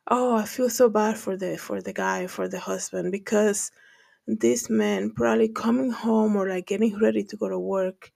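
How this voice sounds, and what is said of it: Speaks with a noticeable accent. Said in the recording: “I guess that's how I pronounce it with my accent”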